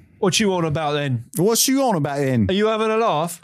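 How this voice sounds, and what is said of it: Nick Frost impression, British accent. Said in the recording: “Yes, Nick Frost. Welcome to the show.”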